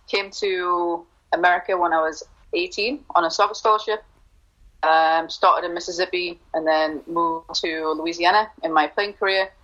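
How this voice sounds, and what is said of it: Newcastle English accent. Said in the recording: “I'm from Newcastle, England, as you can tell by the accent.”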